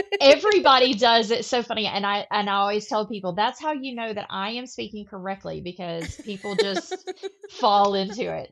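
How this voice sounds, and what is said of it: Southern drawl. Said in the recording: “this woman's southern drawl”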